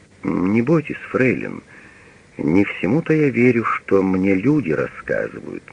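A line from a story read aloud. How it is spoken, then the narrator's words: After a thoughtful pause. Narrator (Russian): подумав, говорит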